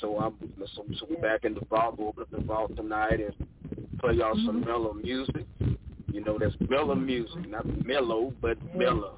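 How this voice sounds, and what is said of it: Gullah accent. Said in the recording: “that's my Gullah, that's my Gullah accent.”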